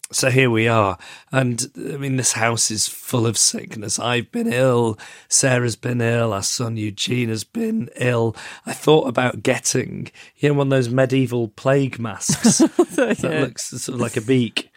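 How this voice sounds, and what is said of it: Hoarse, sick-sounding voice. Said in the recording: “I'm still not much better, as you can hear from my voice... I do think this episode is going to be quite painful to listen to... Your voice is very bad.”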